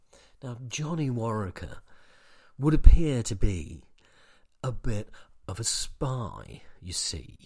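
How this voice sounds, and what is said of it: Bill Nighy impression. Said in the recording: “my Bill Nighy impression.”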